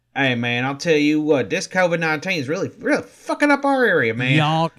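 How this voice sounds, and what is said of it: Put-on Southern US accent. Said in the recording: “a smart genius with a southern accent”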